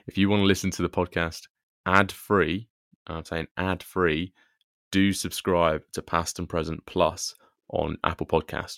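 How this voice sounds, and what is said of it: Polished podcast presenter voice. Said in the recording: “my podcast voice is coming out already”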